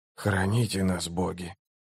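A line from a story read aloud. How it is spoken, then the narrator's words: Whisper. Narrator (Russian): прошептал Барук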